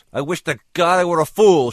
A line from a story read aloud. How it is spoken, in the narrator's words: she cried, feeling her control begin to crack at last